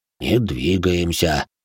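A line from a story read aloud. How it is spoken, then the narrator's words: Tired. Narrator (Russian): устало произнес Иоши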